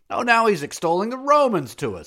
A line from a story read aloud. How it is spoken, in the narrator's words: someone shouted out to him